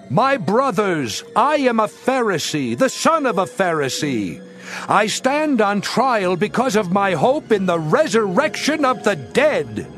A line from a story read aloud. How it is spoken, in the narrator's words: Paul, knowing that some of them were Sadducees and the others Pharisees, called out on the Sanhedrin